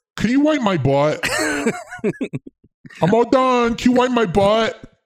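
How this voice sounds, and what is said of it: Baby voice. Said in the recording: “spoken in a baby voice”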